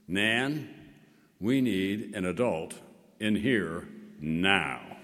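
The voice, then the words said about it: Very commanding child's voice. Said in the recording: “in a very commanding voice,”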